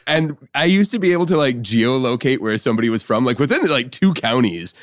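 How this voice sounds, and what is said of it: Usual voice. Nothing is said of it.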